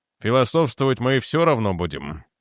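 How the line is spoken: Gloomy remark. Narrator (Russian): мрачно заметил Дженкинс

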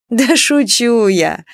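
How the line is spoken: Laughing. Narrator (Russian): рассмеялась Нюраня

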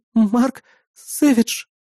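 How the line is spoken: Frightened. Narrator (Russian): испуганно ответила она

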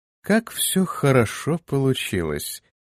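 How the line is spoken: Purring. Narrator (Russian): промурлыкала Иза

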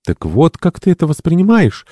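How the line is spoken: Excited exclamation. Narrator (Russian): воскликнула ее так легко возбуждающаяся подруга

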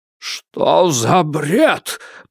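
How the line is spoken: Wheezed hoarsely. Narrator (Russian): прохрипел он

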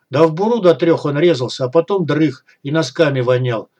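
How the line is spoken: Chuckling telling. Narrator (Russian): с хохотком поведал Кеннер

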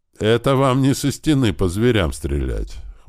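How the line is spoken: Amused snort. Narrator (Russian): хмыкнул Бер

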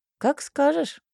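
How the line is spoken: Amused snort. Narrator (Russian): хмыкнул Кей

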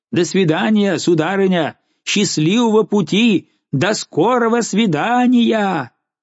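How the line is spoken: Excited shout. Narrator (Russian): Взволнованная Розали крикнула

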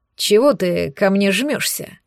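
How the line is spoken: Indignant, displeased tone. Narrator (Russian): возмутился он недовольным тоном

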